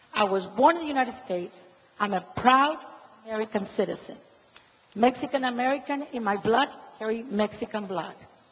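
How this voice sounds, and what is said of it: Noticeable Mexican-American accent. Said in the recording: “You can tell my accent.”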